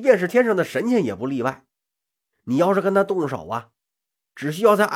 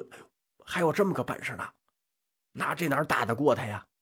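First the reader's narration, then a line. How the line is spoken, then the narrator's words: Uneasy inner muttering. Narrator (Chinese): 蛇精跟蝎子精俩人心里也犯嘀咕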